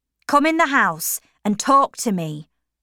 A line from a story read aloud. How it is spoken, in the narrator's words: said Tom angrily